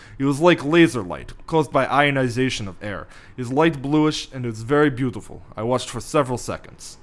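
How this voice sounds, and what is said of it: Put-on Russian accent. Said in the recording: “Can you do a Russian accent for this? ... That's really good.”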